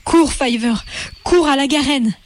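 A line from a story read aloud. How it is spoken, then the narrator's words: Cry out. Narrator (French): s'écria Hazel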